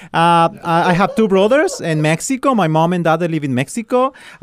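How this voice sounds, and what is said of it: Mexican Spanish accent in English. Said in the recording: “I'm Mexican, so that's why you listen to this kind of funny accent.”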